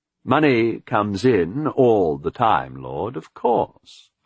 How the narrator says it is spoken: Arthur said smoothly

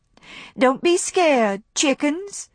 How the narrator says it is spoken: came her voice with teasing gaiety

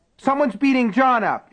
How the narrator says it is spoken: she screamed

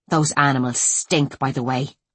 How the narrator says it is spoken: Noelle growled

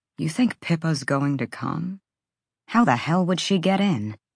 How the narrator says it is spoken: Therion whispered

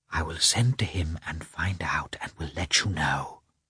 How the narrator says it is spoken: Betsy whispered to her

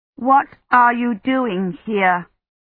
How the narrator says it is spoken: She said, forcing herself to speak more slowly

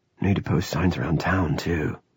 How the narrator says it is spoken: he murmured

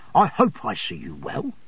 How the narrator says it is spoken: Micawber gravely

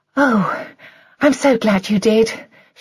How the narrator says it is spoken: she said a little breathlessly

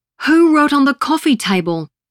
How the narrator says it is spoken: Mum roared when she'd seen it

